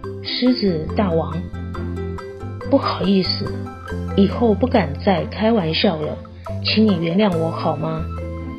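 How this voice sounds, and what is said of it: Speaking very softly, quietly. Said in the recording (Chinese): “很小声地说”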